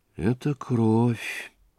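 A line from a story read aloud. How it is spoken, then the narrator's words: Quiet, to herself. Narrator (Russian): отвечала она, наконец, тихо и как будто про себя говоря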